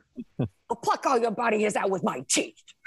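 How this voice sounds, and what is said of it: Brooklyn-accented character voice. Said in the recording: “in your Angela voice ... like a Boston? ... I tried to do a Brooklyn”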